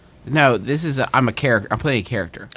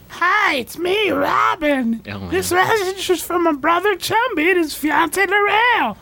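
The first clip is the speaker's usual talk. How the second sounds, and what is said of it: Silly character voice. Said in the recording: “could you do a character voice?”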